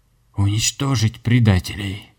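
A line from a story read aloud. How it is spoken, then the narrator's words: Hoarse, slurred. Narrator (Russian): хрипел властитель Нави, но язык не слушался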